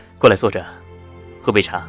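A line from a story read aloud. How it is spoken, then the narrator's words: Faint smile, calm. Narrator (Chinese): 夏医生 淡淡笑着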